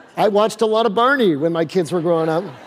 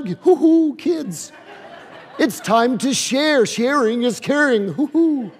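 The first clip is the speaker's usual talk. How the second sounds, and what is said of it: Goofy children's TV character voice. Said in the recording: “Barney would talk like this all the time ... That's my Barney impression.”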